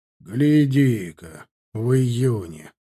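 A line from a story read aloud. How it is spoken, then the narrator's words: Snorting. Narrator (Russian): хмыкнул Копорский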